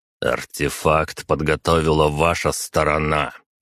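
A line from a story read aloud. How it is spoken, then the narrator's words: Hissed through teeth. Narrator (Russian): процедил я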